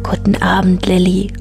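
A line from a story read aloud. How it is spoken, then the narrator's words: Plain, owl voice. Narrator (German): sagte die Eule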